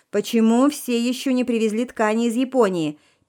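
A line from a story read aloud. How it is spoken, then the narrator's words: Yelling into phone. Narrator (Russian): То и дело орала она в трубку телефона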